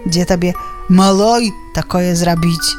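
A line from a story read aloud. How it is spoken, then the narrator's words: Sighing. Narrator (Belarusian): Уздыхае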